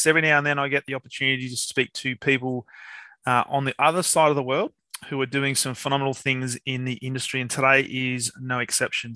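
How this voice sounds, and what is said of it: Australian accent. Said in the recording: “hearing your name pronounced in an accent as enjoyable as the ones that roll up from down under”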